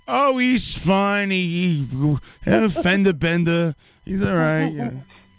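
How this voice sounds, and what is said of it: Imitates another person's voice. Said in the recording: “My mom doesn't talk like that at all ... that was the worst impression of my mother”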